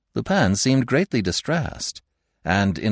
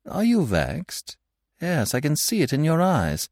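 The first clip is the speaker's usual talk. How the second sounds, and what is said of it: Affectionate, warm tone. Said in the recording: “in an affectionate voice”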